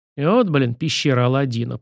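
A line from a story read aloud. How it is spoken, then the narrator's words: Grumbling. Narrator (Russian): проворчал Сашка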